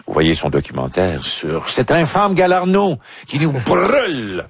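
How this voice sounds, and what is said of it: Strange put-on accent. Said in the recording (French): “c'est dit avec un accent étrange.”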